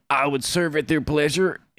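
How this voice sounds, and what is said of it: Imitates another person's voice. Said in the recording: “so good at impersonations”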